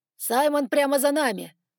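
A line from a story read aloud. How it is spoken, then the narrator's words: Dragon shouting close. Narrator (Russian): прокричал дракон мне в макушку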